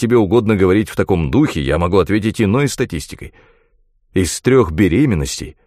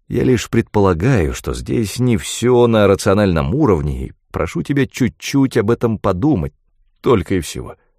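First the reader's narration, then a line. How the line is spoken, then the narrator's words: Very gentle. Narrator (Russian): он заговорил очень ласково, точно с Дженнифер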